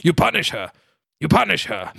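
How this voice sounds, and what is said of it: Impression of Stellan Skarsgård. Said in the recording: “That's a very good Skarsgård. ... he's doing an impression of Stellan Skarsgård in this film.”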